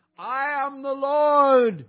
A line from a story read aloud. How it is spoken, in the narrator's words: shouting again and again